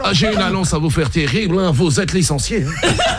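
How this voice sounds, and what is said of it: Put-on Belgian French accent. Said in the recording (French): “l'accent belge... ils peuvent annoncer les drames avec l'accent”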